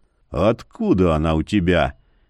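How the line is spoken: Hoarse, disbelieving. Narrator (Russian): хрипло вопросил Яромир, не веря глазам

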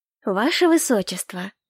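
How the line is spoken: Affectionate, restrained. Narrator (Russian): ласково проговорила я, стараясь сдержаться

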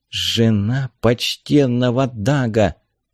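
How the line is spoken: Quiet. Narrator (Russian): тихо сказала Мара

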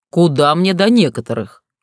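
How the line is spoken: Wry snort. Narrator (Russian): хмыкнул он

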